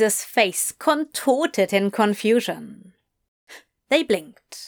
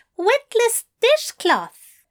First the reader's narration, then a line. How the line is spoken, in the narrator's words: Aziraphale exclaimed gleefully